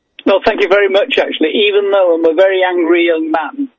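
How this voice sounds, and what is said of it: English accent. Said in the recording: “from jolly old England across the pond ... I love his accent.”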